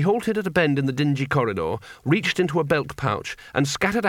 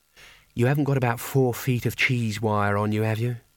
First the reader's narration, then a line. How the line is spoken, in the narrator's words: said wistfully